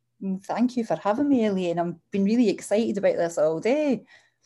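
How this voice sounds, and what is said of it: Strong accent. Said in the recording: “your accent ... it's such a strong accent”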